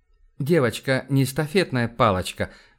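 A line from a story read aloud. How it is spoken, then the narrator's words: Gentle. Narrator (Russian): мягко сказал Сава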